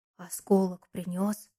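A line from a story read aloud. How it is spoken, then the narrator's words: Whispered question. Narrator (Russian): спросил Валерка шепотом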